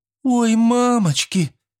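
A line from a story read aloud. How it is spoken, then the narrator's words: Sobbing schoolgirl. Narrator (Russian): всхлипнула одна из учениц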